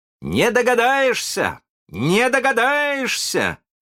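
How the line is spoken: Proud shout. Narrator (Russian): кричал с гордостью Питер

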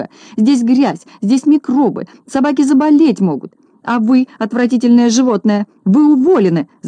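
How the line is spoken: Angry shouting. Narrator (Russian): закричала она

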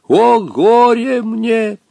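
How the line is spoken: Muffled distant sobbing voice. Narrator (Russian): глухо донесся сквозь густой туман и нарастающий свист падающего ковра, рыдающий голос Хаттабыча

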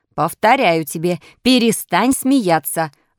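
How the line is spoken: Old man's menacing shout. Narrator (Russian): вновь грозно закричал старик

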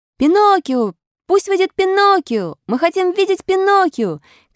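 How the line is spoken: Pitying children shouting. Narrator (Russian): кричали все дети, жалевшие несчастного ослика

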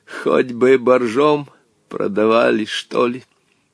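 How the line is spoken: Wooden creaking voice. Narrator (Russian): Он деревянным голосом проскрипел

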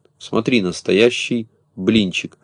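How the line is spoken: Whispered into ear. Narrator (Russian): зашептал Пестренький на ухо Незнайки

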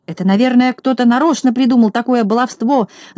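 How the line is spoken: Shouting. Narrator (Russian): закричал Торопышка

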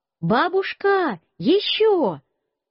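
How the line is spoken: Shout. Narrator (Russian): Я закричал

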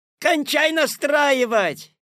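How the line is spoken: Shout from the audience. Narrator (Russian): крикнули из зала

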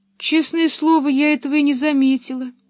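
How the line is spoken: Sad. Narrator (Russian): печально добавила она

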